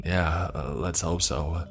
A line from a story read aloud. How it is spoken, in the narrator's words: James said in a quivering voice